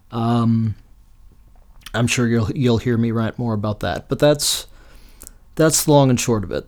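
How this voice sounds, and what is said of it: Rough, strained voice. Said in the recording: “my voice is torn up”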